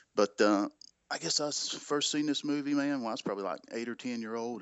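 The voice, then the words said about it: Southern North Carolina accent. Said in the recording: “North Carolina. ... I would have never guessed that accent. ... Yeah, I know. It's bad. ... The dirty South.”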